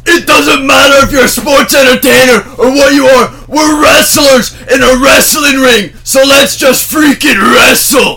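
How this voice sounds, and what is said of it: Impression of Drew McIntyre. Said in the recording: “Good impression”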